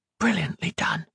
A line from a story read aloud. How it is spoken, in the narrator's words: Octavia whispered